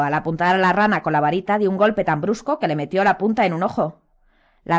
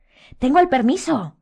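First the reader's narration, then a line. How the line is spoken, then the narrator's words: Exclamation. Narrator (Spanish): exclamó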